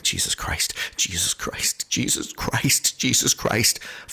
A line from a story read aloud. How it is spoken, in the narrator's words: Eric seems terrified and keeps muttering